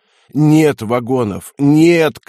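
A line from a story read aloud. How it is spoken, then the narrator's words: Hoarse imploring rasp. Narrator (Russian): клятвенно хрипел путеец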